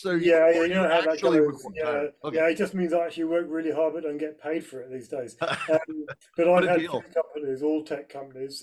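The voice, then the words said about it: Mellifluous northern English accent. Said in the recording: “As you'll gather from my mellifluous accent, I'm based in the UK. ... up in the north of England in Yorkshire”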